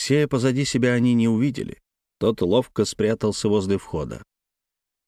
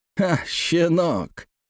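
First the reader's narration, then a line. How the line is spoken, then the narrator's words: Mocking laugh. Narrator (Russian): засмеялся он, по привычке своей пытаясь унизить его взглядом, словами и насмешками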